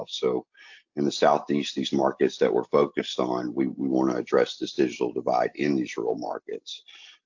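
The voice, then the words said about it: Southern US accent. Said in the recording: “You hear my accent. I'm born in rural areas in the South”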